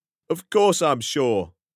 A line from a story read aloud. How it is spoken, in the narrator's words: cried Silas